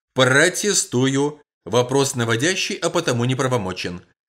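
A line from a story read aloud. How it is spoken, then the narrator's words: Irritated exclamation. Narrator (Russian): раздраженно воскликнул Мейсон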